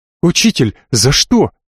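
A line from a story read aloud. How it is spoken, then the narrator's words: Overly emotional exclamation. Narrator (Russian): чересчур эмоционально воскликнул Тиль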